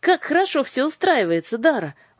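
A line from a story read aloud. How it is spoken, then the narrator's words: Exclamation. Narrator (Russian): воскликнула Аннушка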